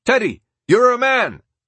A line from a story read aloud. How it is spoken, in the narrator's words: yelled someone in the crowd